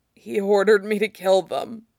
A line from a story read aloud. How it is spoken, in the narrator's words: Fox rasped, coughing